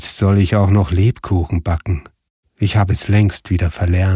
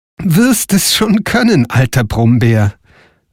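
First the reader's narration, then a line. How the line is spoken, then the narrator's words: Laughing reply. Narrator (German): antwortete Frau Holle lachend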